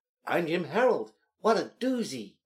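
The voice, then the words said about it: Imitates another person's voice. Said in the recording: “That was my impression. ... That was an awful impression.”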